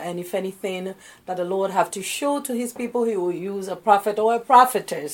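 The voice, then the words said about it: Slight West African accent. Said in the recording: “I noticed a slight accent. Are you from Brooklyn? ... I'm originally from West Africa. ... Ghana, West Africa.”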